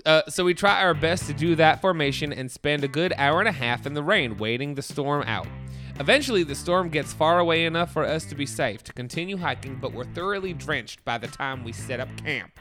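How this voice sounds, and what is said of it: Put-on Southern accent. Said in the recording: “I'm reading better with an accent. Have you noticed? ... This is such an offensive accent. ... I have Southern friends”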